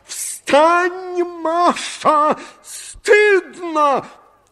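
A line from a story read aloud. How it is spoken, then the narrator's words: Furious shout. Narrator (Russian): Закричал я в бешенстве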